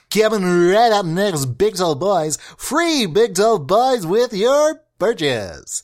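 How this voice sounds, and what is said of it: Announcer voice. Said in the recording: “do that announcer voice ... that's kind of like my, you know, my announcing voice”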